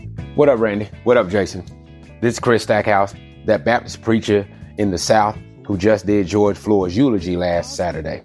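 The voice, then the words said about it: Deep Southern American accent. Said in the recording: “how deep his Southern accent is”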